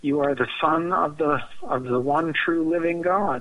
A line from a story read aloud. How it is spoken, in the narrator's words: Peter piped right up and said